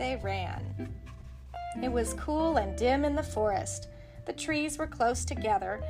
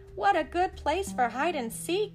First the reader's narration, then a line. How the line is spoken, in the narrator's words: cried Todd